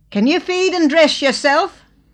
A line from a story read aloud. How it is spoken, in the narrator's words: she yelled